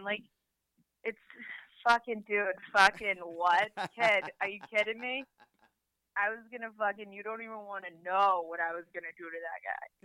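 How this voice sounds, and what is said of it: Exaggerated Boston accent. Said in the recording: “the Bostonian ... I'm a Bostonian ... accent?”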